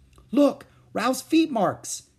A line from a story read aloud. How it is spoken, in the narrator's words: exclaimed Ramona